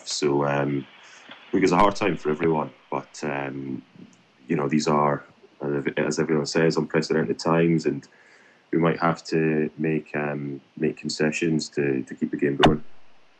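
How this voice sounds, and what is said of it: Scottish accent. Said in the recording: “clearly your accent will give away a bit of your history ... born and raised in Scotland”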